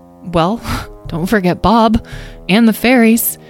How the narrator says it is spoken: Petra sighed

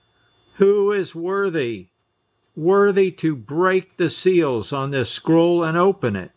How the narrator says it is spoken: a strong angel who shouted with a loud voice

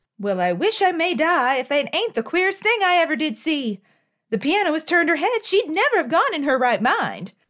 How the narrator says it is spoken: cried Hannah

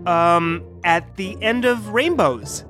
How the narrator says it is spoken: said Dr

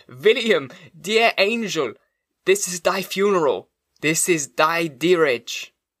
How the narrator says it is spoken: I exclaimed aloud

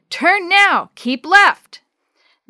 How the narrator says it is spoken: Jake bellowed

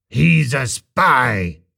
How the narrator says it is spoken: roared the technician

